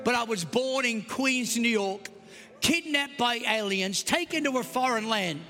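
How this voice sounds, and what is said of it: Australian accent. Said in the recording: “I know I have an Australian accent”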